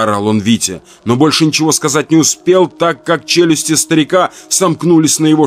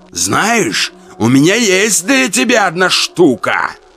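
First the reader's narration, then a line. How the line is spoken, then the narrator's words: Growling. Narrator (Russian): Прорычал он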